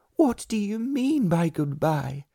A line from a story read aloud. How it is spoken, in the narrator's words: she cried